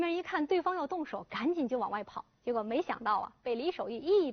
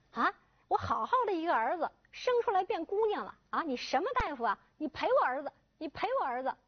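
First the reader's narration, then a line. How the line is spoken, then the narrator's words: Shouting while fighting. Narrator (Chinese): 这一边打呀，李守义啊嘴里还一边喊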